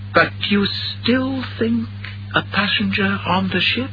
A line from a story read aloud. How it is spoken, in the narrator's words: Ellie Henderson said softly